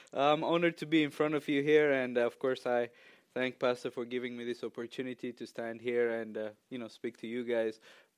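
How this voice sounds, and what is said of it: Ethiopian-accented English. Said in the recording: “I'm from Ethiopia. I do think I have a wonderful accent. People tell me all the time, you have an accent.”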